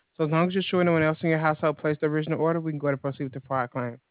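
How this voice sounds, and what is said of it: Very fast speech. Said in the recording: “you're talking very fast.”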